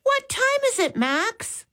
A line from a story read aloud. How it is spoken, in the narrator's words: Molly called out